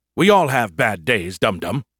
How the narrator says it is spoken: he snapped at me

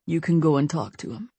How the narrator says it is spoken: Larry said in a low voice

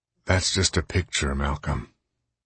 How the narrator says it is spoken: Case said wearily

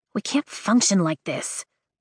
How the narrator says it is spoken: she says to the group quietly

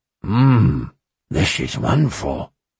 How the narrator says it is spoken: he mumbled around a hot chunk of meat

